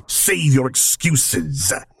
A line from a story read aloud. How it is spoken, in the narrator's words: he snapped